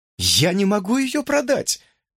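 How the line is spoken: Exclaiming. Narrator (Russian): воскликнула Имаджин

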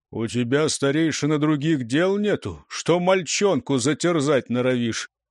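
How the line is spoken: Gloomy rumble. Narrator (Russian): мрачно прогудел

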